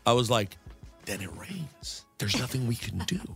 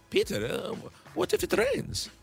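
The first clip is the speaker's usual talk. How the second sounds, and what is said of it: Imitates another person's accent. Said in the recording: “That's mom's accent? ... Yeah, that was close.”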